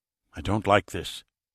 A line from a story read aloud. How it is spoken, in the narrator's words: said in a hushed tone